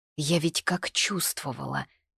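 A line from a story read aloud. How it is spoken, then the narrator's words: Lost whisper. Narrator (Russian): потеряно прошептала я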